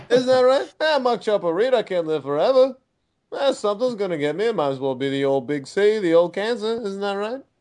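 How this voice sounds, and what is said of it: Poor imitation of another person's accent. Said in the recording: “the shitty chopper accent I did”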